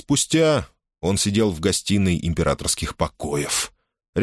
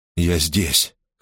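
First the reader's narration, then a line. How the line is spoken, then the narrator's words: Hoarse reply. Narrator (Russian): хрипло отозвался Гордон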